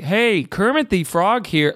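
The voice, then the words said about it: Too-low Kermit the Frog impression. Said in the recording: “it's too low. It's like a man, it's like an old dad doing an impression of Kermit”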